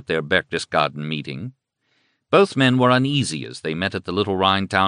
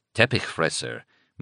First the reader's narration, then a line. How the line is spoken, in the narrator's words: muttered my German companion, an editor who secretly despised the Nazis